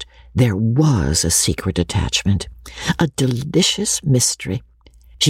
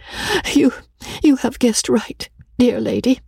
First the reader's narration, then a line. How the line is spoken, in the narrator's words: she said, with a sweet, faltering voice